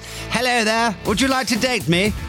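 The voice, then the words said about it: Posh received pronunciation accent. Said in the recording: “They want received pronunciation... Which is the classic speech heard from BBC announcers in the 50s.”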